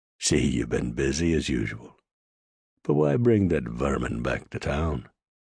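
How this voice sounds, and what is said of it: Heavy Irish accent. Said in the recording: “with a heavy Irish accent”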